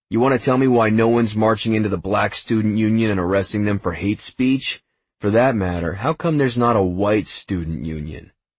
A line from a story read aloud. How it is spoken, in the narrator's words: Yorkie snorted